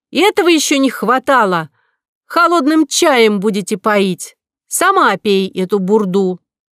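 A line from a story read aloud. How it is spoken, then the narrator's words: Indignant shout. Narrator (Russian): Нинеля крикнула медсестре, которая торчала в дверях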